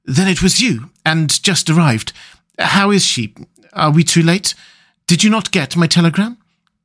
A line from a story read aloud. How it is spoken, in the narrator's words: he gasped out